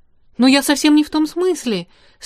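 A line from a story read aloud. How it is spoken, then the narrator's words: Alarmed exclamation. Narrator (Russian): с тревогой воскликнула она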